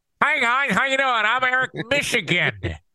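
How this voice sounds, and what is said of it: Nasal Michigan accent. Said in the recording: “the Michigan accent ... I'm talking through my nose”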